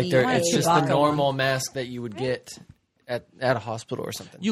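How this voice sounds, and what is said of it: Usual voice. Nothing is said of it.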